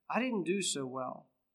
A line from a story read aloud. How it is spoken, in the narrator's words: to his dad, he sadly said